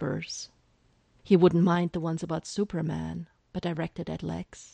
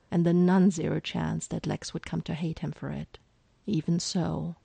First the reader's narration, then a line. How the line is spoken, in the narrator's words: she sighed